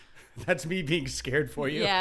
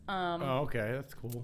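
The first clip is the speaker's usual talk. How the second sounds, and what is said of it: Sarcastic remark. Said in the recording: “That was sarcastic.”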